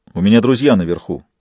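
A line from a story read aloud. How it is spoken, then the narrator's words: Angry, curt. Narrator (Russian): зло бросил Джек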